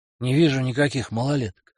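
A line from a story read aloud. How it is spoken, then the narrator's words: Grumbled. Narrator (Russian): буркнул Бугай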